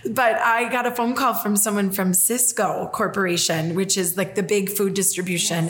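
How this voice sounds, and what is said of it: Minnesota accent. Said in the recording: “I'm a girl from Minnesota. Yes, exactly, my accent.”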